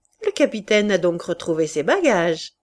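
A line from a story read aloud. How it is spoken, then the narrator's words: Sneering laugh. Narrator (French): ricana Loubet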